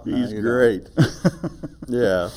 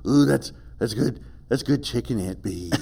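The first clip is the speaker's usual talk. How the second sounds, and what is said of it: Imitation of Floyd the Barber's voice. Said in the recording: “his Floyd the Barber imitation ... I don't do it as well as he does.”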